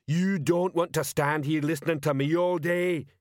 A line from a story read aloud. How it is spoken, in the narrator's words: he bellowed